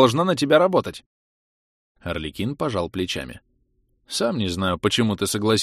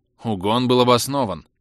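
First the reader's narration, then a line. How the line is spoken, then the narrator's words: Irritated. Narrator (Russian): раздраженно ответил Орликин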